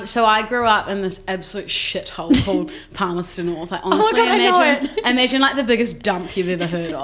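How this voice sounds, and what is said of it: Thick New Zealand accent. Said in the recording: “everyone's like, you have the thickest accent ... I think the Kiwi accent's pretty thick ... especially mine ... they don't have an accent like mine”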